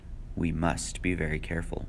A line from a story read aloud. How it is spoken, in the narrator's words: The judge murmured with a reptilian smile